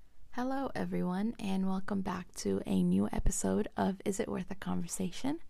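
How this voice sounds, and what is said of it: Congested, strained voice. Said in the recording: “excuse my voice, my allergies are in full mode”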